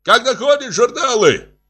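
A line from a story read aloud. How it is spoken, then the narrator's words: Shouting again. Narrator (Russian): Опять закричал Владимир Семенович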